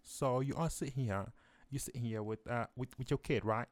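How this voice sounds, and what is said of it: Bad put-on British accent. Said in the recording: “My British accent is so bad.”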